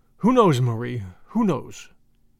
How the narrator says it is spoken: he said

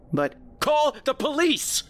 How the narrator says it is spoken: I yelled

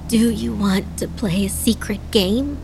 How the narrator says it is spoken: Adana asked, her voice raspy

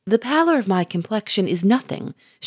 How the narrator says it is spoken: answered, a little impatiently

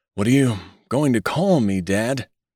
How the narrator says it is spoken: he quavered

